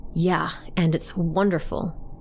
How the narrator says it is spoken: Aaron said

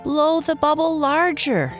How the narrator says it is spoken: shouted Ned

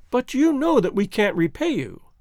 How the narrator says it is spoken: cried the girl

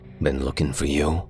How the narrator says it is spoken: he said after a moment, his voice all edges and canyons

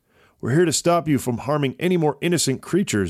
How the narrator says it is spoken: Avin said

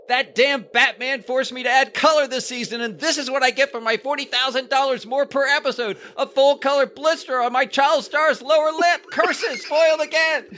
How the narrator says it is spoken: Irwin Allen shouting in the background

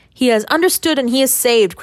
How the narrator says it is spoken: cried Gennaro

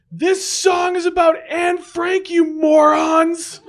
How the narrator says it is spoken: tried yelling over the fuzzy and upbeat indie folk song

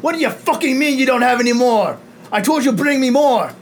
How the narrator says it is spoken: shout out

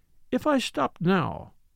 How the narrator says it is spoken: she observed dryly to Poirot

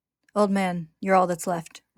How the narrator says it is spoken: Roy says

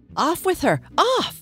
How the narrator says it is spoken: The queen turned crimson with fury, and after glaring at her for a moment like a wild beast, screamed

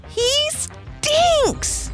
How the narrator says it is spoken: shouted the ladybug

